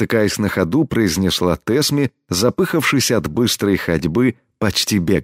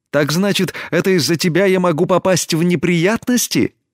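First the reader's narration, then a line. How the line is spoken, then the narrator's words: Indignant exclamation. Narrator (Russian): Негодуя воскликнула Тесми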